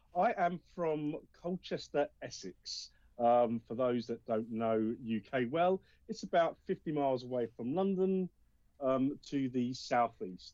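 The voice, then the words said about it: Distinct English accent. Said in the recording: “a very distinct accent”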